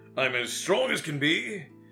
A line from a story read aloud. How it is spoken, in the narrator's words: he roared